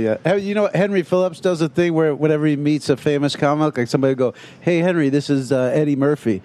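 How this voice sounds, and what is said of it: Usual voice. Nothing is said of it.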